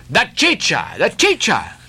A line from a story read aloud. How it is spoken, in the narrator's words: cried Don Pedro